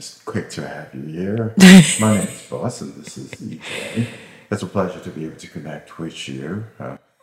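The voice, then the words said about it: Smooth radio announcer voice. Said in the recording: “you really do have a radio voice”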